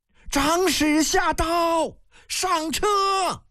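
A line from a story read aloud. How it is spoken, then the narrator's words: Distant shrill shout. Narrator (Chinese): 身后摇摇一声尖亮的呼喊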